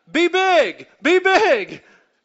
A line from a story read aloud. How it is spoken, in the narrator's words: they usually start yelling